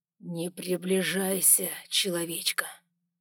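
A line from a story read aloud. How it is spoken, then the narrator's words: Threatening growl. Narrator (Russian): Угрожающе рыкнул он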